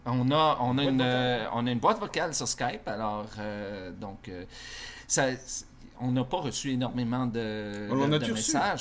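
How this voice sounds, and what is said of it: Québécois French accent. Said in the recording (French): “ils aiment beaucoup l'accent québécois ... C'est vrai que t'as un accent, hein?”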